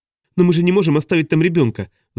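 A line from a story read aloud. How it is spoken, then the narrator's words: Agitated woman exclaiming. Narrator (Russian): взволнованно воскликнула женщина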